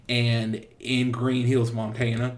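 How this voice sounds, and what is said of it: Put-on Montana accent. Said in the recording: “that's my Montana accent”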